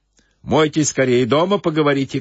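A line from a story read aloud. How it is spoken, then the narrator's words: Shouting. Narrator (Russian): крикнул банщик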